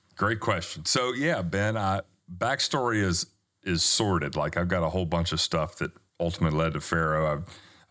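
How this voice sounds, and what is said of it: Noticeable foreign accent. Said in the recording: “he's got a great accent, you could tell already”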